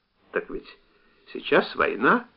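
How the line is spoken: Calm reply. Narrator (Russian): спокойно ответил Володя

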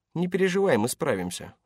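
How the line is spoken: Careful, neutral reassurance. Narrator (Russian): заверил ее Паркер, стараясь говорить осторожно, нейтральным тоном

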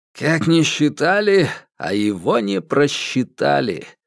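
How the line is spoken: Gloomy. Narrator (Russian): мрачно сказал Ду Цзяньпин

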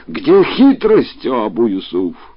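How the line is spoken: Angry exclamation. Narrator (Russian): И гнев повелителя правоверных усилился, и он воскликнул

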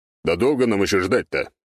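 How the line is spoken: Grumbling. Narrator (Russian): пробурчал Сектор

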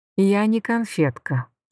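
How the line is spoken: Calm. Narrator (Russian): сказала я спокойно

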